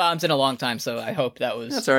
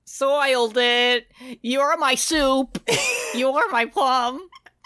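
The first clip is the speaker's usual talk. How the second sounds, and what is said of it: Cartoon character voice impression. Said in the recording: “SpongeBob going, soiled it! ... There was a touch of front bottoms in that impression you just did.”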